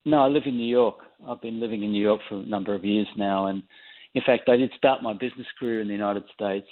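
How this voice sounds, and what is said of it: Australian accent. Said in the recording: “people probably tell from the accent, you're Australian and you grew up there”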